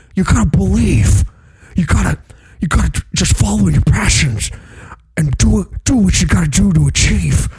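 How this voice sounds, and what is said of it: Motivational speaker impression. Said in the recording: “doing an impression of an impression. ... someone else doing an impression of Tony Robbins.”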